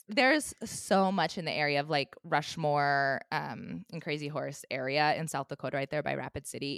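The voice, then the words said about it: Tired, worn voice starting to go. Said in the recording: “I am exhausted. I don't know if you guys can tell from my voice, but um, it is kind of starting to go a little bit. ... I sound maybe weird on this episode”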